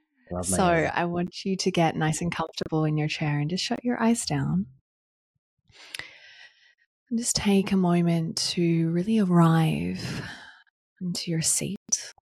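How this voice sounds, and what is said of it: Calm yoga teacher voice. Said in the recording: “this is where the yoga teacher comes out... I'll drop into my yoga teacher voice”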